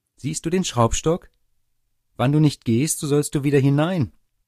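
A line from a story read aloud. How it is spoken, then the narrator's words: Shout. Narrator (German): Das Schneiderlein rief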